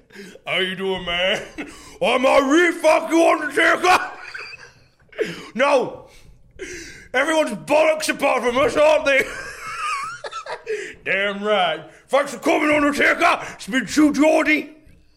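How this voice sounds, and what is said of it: Impression of True Geordie. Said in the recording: “A True Geordie doing an impression of another True Geordie there.”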